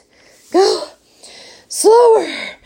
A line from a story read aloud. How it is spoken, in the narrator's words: panted Mrs